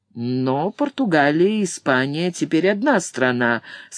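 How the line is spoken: Mocking. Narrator (Russian): сказал Блэксорн насмешливо

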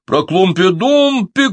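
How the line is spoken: Group shouting. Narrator (Russian): кричали другие

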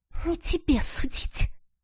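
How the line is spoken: Ghostly lady's hiss. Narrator (Russian): прошипела призрачная леди

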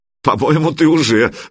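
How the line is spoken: Laughing. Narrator (Russian): засмеялся Санек

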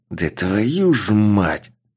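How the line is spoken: Man's growl. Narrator (Russian): Мужчина прорычал

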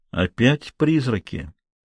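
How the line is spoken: Muttered. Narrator (Russian): пробормотал лавочник

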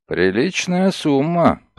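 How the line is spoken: Grumble. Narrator (Russian): проворчал Мегре

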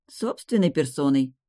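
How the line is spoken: Grumbling. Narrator (Russian): проворчала я

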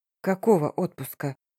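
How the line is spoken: Grumble. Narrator (Russian): буркнула

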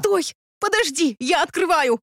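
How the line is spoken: Shrieked. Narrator (Russian): взвизгнула я

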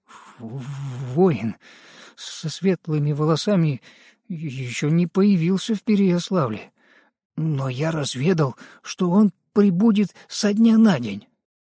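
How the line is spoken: Trembling voice reply. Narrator (Russian): Горислав дрожащим голосом ответил

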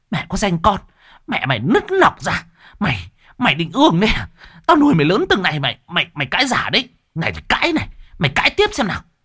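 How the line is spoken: Snake-like hiss. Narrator (Vietnamese): miệng bà rít lên như con rắn

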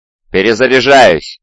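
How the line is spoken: Shout. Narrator (Russian): крикнул Валион

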